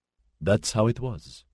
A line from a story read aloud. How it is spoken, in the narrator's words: Sylvestre said